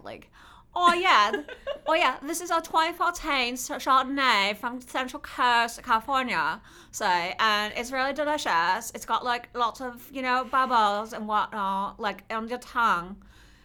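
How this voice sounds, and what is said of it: Put-on British accent. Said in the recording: “maybe I can do it as Adele.”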